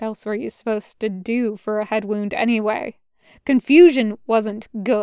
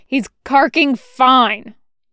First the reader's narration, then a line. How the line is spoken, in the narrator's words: Boyle snapped